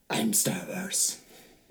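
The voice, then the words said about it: Darth Vader and Batman mixed voice. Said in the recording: “That was your Darth Vader impression? ... I was stuck halfway in between Darth Vader and Batman”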